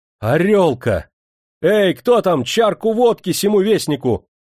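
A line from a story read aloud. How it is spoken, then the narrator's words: Cheerful shout. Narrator (Russian): весело закричал он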